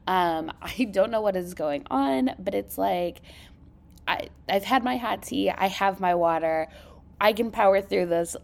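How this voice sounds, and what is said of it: Vocal fry, congested voice. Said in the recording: “I do want to apologize for the vocal fry today. Uh, it has been a week of just like a sinus something.”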